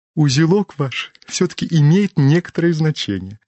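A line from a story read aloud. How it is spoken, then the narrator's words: Continuing after hearty laughter. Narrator (Russian): продолжал чиновник, когда нахохотались досыта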